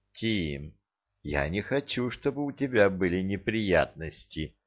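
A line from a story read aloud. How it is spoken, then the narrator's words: Ticklish whisper in ear. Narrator (Russian): щекотно шепнула она ему прямо в ухо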